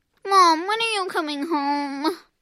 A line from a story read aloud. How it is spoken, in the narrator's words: whined